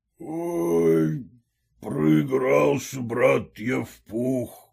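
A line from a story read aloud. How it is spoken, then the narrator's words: Hoarse mutter. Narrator (Russian): пробормотал он хриплым голосом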